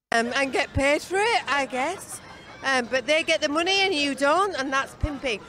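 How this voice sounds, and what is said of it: Older woman with British accent. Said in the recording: “older British woman's accent ... this eloquent British lady”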